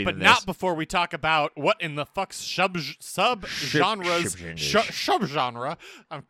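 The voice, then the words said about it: Rushed, poor Sean Connery impression. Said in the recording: “That was the worst Sean Connery impression I've ever heard. ... As he's rushing it.”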